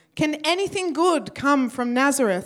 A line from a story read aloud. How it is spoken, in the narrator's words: exclaimed Nathanael